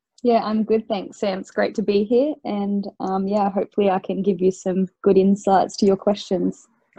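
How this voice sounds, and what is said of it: Australian accent. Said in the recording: “you're definitely Australian by your accent there”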